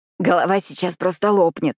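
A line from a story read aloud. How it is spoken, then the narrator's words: Hoarse croak. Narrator (Russian): хриплю я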